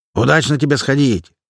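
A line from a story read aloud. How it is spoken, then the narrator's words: Laughing shout from big man. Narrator (Russian): хохотнув, крикнул им вдогонку здоровяк Клепан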